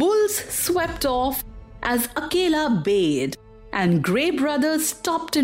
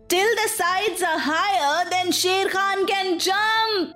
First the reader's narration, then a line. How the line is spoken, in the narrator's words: shouted Mowgli